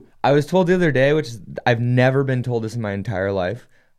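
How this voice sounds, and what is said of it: Usual voice. Nothing is said of it.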